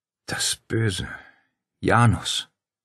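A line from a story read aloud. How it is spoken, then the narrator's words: Sighing. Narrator (German): seufzte Claudia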